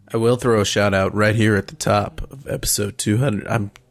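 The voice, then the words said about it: Attempted very low, deep voice. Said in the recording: “I was trying to get low voice for the Barry Manilow... That's pretty low.”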